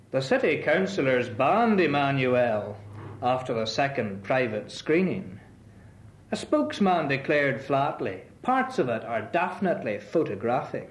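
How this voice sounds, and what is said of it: Poem read in Belfast accent. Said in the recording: “in the Belfast accent”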